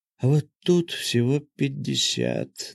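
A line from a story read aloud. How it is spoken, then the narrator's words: Tense muttering. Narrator (Russian): напрягаясь все больше, пробормотал я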